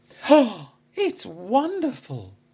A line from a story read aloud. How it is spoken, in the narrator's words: I exclaimed